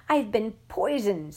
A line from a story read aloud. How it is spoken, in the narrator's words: spluttered the manly lover